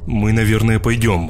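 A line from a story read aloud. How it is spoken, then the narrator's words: Rude mutter. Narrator (Russian): с определенной ноткой грубости буркнула моя супруга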